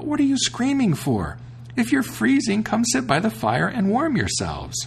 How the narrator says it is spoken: he cried out

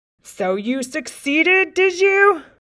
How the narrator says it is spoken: snarled the king

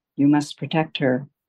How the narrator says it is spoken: the woman whispers

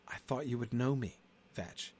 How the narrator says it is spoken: His voice shook a little as he said

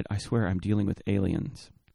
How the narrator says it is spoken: in a whispered aside added

